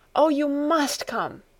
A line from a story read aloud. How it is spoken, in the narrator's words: she called out